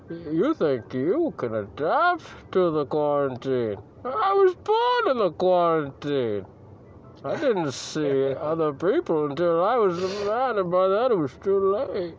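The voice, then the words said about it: Bane impression voice. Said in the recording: “slipping into the Bane accent.”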